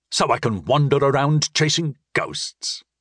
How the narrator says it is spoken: he asked bitterly

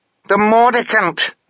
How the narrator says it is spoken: yelled Mogget

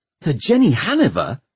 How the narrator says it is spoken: gasped Tom

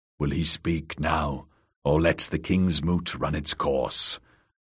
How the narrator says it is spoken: Orcwood of Orcmont was whispering in Euron's ear

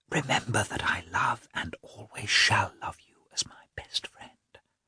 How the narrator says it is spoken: Anna's emotion had spread to Dolly, who whispered

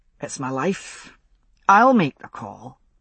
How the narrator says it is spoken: he said, and was surprised to hear his voice calm and steady

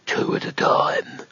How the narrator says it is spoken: it muttered

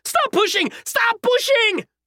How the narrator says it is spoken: those at the front began to scream

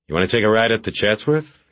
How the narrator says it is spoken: he asked

